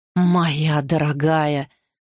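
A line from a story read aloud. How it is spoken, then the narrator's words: Breathless. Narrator (Russian): выдохнул Гарри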